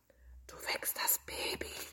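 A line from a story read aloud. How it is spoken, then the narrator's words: Whispered by everyone. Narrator (German): flüsterten alle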